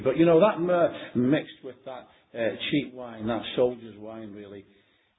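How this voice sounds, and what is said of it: Liverpool accent, dropped R's. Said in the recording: “my Liverpoolian accent, I can't pronounce the word myrrh... I don't pronounce my R's”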